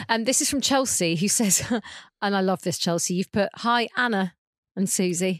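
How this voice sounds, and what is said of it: Usual voice. Nothing is said of it.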